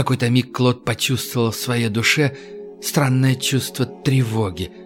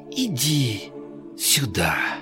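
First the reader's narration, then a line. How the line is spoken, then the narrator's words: Soft whisper. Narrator (Russian): тихо прошептала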